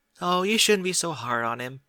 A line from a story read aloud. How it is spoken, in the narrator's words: Cheerly said with a chuckle